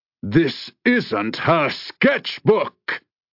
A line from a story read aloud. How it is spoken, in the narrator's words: he roared